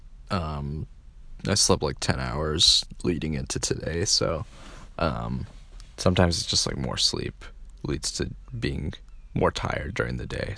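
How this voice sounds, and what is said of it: Tired, low-energy voice. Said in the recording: “You can probably tell in my voice that I'm tired ... I'm sort of low energy right now”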